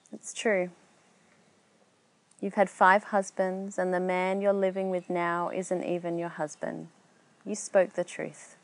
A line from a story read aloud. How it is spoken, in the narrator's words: knowing her past and her hardships, answered softly